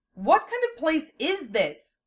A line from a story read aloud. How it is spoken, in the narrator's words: Lena demanded at the top of her lungs